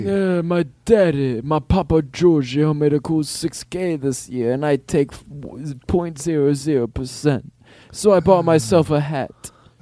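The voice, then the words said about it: Godfather-style mobster voice. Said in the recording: “Godfather impersonations”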